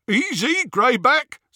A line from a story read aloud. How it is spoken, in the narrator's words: said Scabier, over the jeering of the others